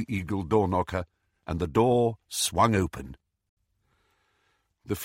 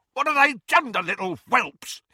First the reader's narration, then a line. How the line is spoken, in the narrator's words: he screamed